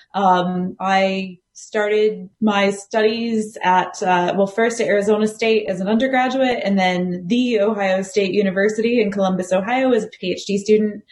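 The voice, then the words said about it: American accent. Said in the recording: “as the accent probably betrays, I am American”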